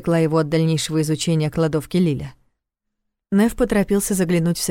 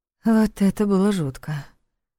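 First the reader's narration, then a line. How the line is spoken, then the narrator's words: Nervous breathy exhale. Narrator (Russian): выдохнула Лиля, нервно улыбнувшись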